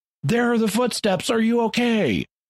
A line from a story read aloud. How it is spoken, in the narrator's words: the people below start yelling to Lloyd, saying